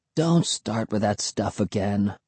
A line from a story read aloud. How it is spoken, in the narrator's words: Will grumbled